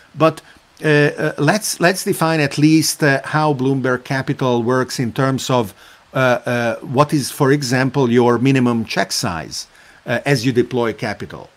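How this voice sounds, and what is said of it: Possibly Italian accent. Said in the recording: “You speak in a beautiful, maybe Italian accent. I don't know exactly what the accent is”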